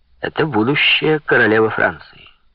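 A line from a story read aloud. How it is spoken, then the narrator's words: Plain. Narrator (Russian): ответил Людовик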